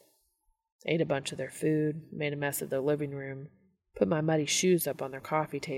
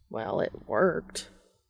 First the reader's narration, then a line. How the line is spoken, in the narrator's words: Castiel mutters